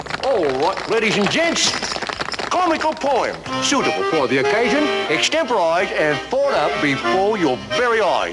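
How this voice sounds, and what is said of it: Unconvincing put-on English accent. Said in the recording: “cannot stand Dick Van Dyke's English accent in Mary Poppins ... it was really appalling accent”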